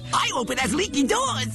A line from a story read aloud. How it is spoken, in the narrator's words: cried the second